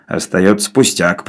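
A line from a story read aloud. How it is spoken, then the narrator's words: Grumbling. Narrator (Russian): проворчал Навага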